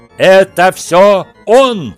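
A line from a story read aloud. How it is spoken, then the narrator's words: Fake hysterical shouting. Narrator (Russian): сквозь притворную истерику прокричал Дадли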